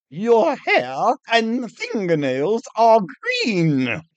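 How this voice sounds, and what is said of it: Huffy, indignant voice. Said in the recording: “in a huffy voice”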